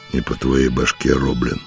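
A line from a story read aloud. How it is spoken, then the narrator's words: Grim. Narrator (Russian): мрачно сказал он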